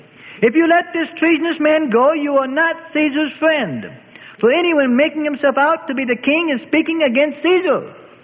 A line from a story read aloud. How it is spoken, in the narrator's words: A scribe shouted out boldly